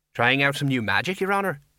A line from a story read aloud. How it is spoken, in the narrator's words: he said brightly